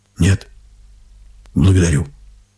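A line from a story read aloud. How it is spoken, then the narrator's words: Cold. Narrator (Russian): отвечает она холодно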